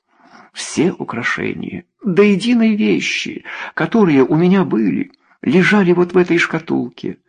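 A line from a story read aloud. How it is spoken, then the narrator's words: Sobbing. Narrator (Russian): рыдала она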